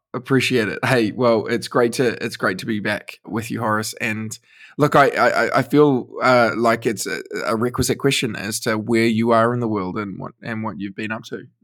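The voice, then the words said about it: Mellow, pleasant accented voice. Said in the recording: “you have the most dulcet tones? ... that accent coupled with your choice of words”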